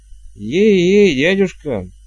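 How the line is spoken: Weary. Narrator (Russian): устало выговорил он

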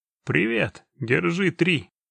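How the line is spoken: Cheerful. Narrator (Russian): весело говорил

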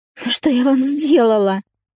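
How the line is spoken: Bewildered shrill squeal. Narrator (Russian): Взвизгнула, искренне не понимая

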